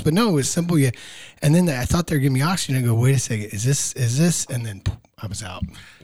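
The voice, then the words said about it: Raspy, hoarse voice. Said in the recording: “Can we keep your voice this raspy for the rest of the time? ... voice is a little hoarse”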